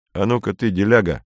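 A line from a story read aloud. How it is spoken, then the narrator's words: Plain. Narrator (Russian): сказал он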